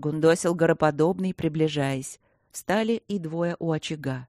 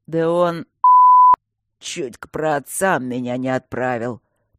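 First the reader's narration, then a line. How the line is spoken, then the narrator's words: Hoarse wheeze. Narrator (Russian): просипел гороподобный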